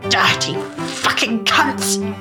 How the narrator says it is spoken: spat

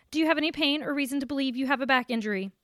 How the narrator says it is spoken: One asked in a curt tone

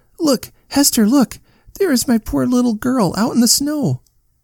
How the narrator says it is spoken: all of a sudden, she cried out

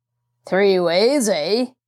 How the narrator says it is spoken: the other man laughed harshly

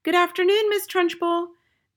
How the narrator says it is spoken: they chirped

